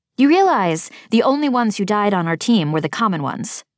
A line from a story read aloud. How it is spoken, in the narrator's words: I snapped